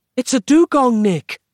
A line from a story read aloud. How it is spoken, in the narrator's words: yelled Roz